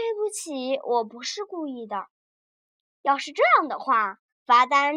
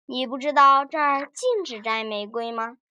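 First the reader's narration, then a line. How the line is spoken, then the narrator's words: Amused, laughing. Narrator (Chinese): 警察 笑着说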